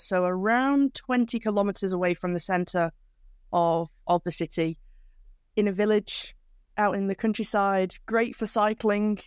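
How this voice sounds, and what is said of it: English accent from near Manchester. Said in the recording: “your UK accent. If I'm correct, it's near Manchester”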